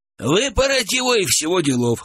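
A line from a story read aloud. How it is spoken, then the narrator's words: Chuckle. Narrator (Russian): хохотнул Гурьян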